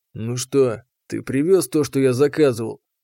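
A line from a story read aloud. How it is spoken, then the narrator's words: Grumbling. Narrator (Russian): проворчал Нургар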